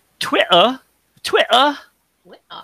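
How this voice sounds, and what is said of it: Bad fake British accent. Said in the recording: “that's a really bad impression of a, a British accent”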